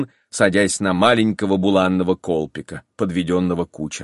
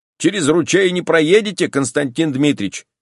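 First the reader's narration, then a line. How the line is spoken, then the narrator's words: Coachman shouting. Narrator (Russian): крикнул кучер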